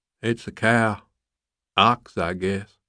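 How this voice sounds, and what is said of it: Southern drawl. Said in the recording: “The southern drawl was unmistakable”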